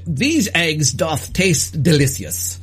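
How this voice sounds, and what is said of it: Good impersonation of a character. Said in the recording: “You do a really good Otis and Lavondo impersonation.”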